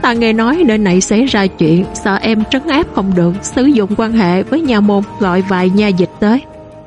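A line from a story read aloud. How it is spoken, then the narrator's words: Lowered voice. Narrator (Vietnamese): Trương Trọng Vi hạ giọng nói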